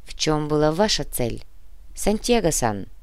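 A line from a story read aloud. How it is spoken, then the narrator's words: Quiet repetition. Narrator (Russian): тихо повторил Тори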